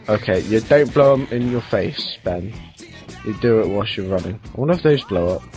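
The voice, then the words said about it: Deep, congested voice from a cold. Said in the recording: “Yours sounds deeper on Skype... Mine sounds deep because I've got a cold.”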